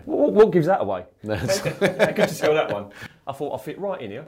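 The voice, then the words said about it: English accent from Basildon. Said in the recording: “as you can tell by his accent, he doesn't hail from Ballarat ... There's a bit of Basildon in there ... There's plenty of Basildon in there”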